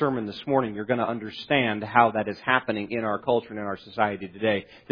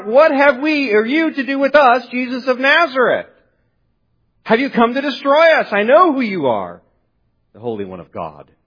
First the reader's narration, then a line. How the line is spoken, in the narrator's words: he screams out